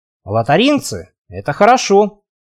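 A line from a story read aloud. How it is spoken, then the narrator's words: Grumbling. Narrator (Russian): проворчал Славик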